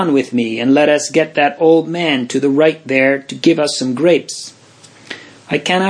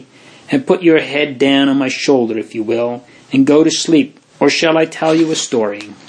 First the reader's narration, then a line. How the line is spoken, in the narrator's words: said tenderly